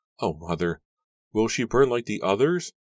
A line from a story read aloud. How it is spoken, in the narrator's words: Susanna cried, choking out the words